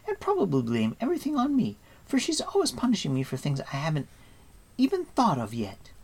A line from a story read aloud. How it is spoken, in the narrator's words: added with a delighted laugh